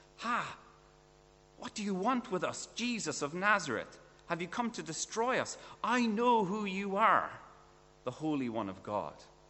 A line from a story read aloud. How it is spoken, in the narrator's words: He cried at the top of his voice